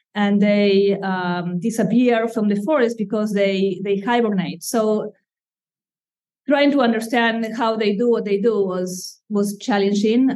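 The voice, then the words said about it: Slight Argentine accent. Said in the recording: “you have a slight accent ... I come from Argentina ... the accent has stayed with me”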